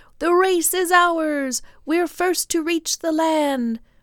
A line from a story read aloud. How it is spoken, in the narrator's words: cried the waves